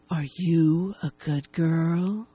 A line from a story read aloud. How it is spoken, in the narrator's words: She asks huskily